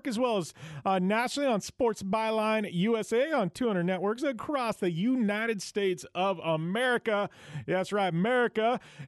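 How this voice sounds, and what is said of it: Put-on Southern twang. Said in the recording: “I had to get my little southern twang going on there when I said Merca.”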